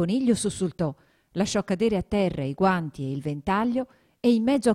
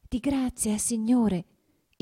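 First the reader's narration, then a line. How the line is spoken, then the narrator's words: Trembling soft voice. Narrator (Italian): gli disse, con voce tremula e sommessa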